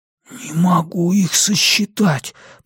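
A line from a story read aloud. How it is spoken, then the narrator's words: Whisper. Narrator (Russian): прошептал он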